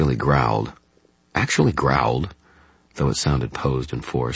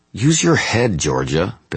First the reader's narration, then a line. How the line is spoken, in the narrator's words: Billy snapped back